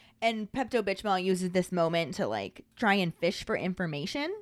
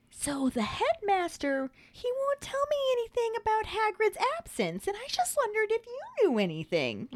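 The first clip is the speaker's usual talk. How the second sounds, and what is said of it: Impression of Dolores Umbridge. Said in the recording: “my Umbridge impression”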